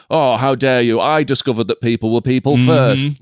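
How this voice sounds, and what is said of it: Put-on Yorkshire accent. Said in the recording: “I don't know why I do Yorkshire.”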